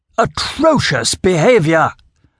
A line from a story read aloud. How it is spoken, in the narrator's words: Murchison boomed again